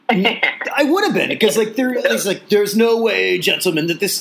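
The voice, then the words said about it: Poor imitation of a film character's voice. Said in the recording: “I would have been the Mike Myers character ... a terrible impression, I know”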